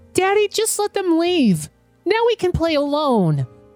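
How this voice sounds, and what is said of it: Calm child's voice. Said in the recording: “in a calm voice”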